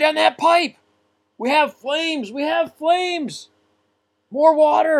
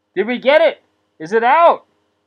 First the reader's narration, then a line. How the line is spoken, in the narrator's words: Shouting from up above